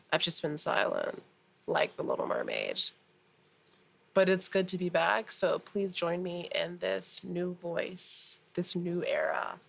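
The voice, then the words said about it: Raspy, gravelly voice. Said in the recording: “if you can hear my voice, it's a little raspy, it's a little grovelly, because I haven't used my voice since then.”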